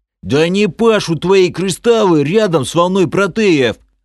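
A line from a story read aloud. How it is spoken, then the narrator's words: Half-orc yelling. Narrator (Russian): заорал полуорк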